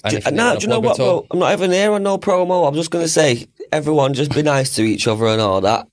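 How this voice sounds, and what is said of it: Northern English accent. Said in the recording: “my dirty northern accent”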